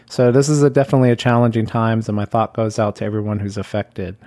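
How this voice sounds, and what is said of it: Strained voice. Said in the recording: “apologize for my voice ... I oftentimes have pretty strained voice ... I apologize for the quality of it”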